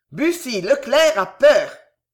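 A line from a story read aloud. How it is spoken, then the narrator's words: Loud shout. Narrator (French): cria Pardaillan à haute voix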